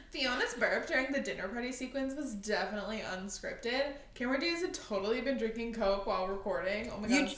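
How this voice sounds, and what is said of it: Valley Girl accent. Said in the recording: “A Valley Girl accent.”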